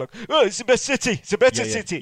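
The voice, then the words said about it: Bad Manchester accent, sounding Yorkshire. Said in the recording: “that was a bad Manchester accent. I was more Yorkshire there, wasn't I?”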